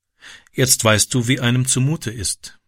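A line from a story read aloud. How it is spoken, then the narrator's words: Calm. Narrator (German): sagte sie ruhig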